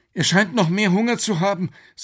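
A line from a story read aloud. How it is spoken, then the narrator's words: Trembling voice. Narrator (German): sagte Alex mit zitternder Stimme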